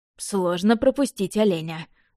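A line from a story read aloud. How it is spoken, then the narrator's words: Snorted. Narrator (Russian): фыркнул Яблонев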